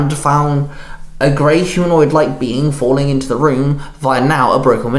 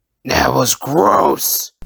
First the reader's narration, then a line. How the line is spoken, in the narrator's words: Venom growled